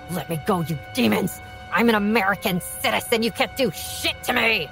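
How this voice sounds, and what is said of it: Raw, primal scream. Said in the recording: “Her voice was a raw, primal scream that echoed through the bar”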